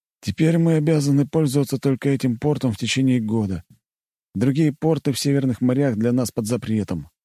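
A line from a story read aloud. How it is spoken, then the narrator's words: Sighing. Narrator (Russian): вздохнул он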